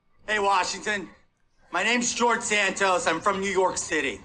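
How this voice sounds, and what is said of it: Exaggerated New York accent. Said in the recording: “his putting on the New York accent, I know he has one, but really emphasizing it”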